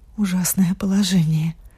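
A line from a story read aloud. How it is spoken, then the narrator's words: Pained whisper. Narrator (Russian): прошептала с выражением сильной боли на лице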